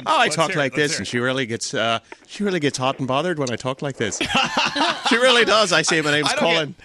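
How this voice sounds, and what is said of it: Fake Irish accent. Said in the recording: “I use a fake Irish accent.”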